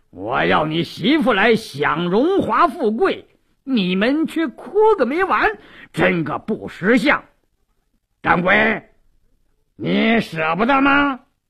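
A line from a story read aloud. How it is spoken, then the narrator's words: Sneering laugh. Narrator (Chinese): 鲁斋郎冷笑一声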